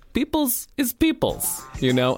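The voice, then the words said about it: Bad imitation Greek accent. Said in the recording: “that's a terrible Greek accent”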